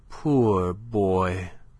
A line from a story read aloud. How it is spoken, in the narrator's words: she said tenderly